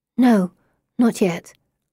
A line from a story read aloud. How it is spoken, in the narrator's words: I whisper